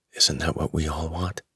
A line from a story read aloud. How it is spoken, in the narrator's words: The reporter, her eyes shimmering with admiration and introspection, whispered, almost to herself